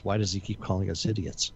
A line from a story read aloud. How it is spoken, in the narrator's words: Muttering to themselves